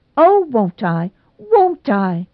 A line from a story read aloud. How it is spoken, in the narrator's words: cried Nora, so shamelessly